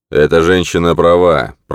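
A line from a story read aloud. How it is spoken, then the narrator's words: Growl. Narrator (Russian): прорычал Агмундер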